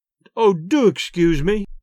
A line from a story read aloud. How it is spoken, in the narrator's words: gasped poor Adelia, wiping tears from her eyes